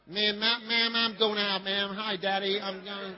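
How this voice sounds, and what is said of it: Put-on American-style child accent. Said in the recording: “speak like a British person ... want your children to speak like Americans”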